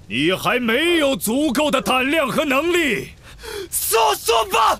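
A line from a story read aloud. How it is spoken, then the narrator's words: Roar. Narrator (Chinese): 哈利咆哮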